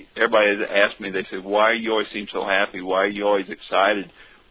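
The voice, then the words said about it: American southern accent. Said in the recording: “they kept telling me I had a funny accent, because of my southern accent,”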